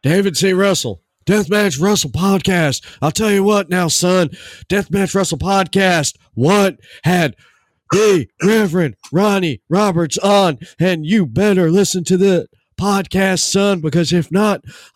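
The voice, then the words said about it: Imitates another person's voice. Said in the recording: “impersonation ... I sound like a AJ Styles trying to sound like Stone Cold Steve Austin”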